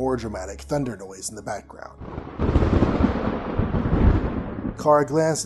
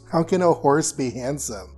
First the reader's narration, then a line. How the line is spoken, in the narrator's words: Carr laughed